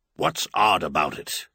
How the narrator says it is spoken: Clinton snorted disdainfully

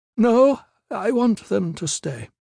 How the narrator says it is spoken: the White said wearily

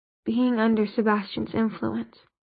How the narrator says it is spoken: he said hoarsely

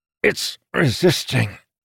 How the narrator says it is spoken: Amandal said through clenched teeth

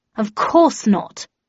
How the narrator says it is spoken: replied Shithouse in an offended tone

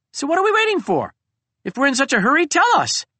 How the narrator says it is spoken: chirped a snow bunting

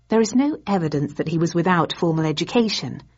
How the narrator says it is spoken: I returned evenly, suddenly enjoying myself

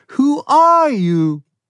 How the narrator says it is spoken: The Zed in the Airstream trailer, with wide, shocked eyes, shouted

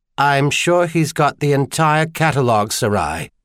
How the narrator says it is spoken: Charlian said dryly

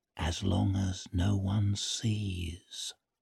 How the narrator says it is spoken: He leaned sideways to whisper it

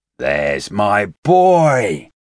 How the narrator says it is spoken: Shi Qiang shouted

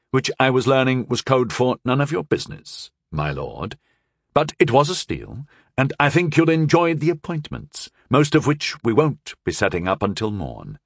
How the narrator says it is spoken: Sir Kay said smoothly

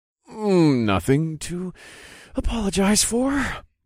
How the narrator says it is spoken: I groaned

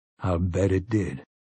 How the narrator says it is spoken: Roland said grimly

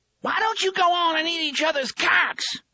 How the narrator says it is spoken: the struggling thing in the chair screeched

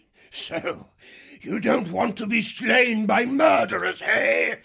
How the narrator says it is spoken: Earthstripe roared with laughter

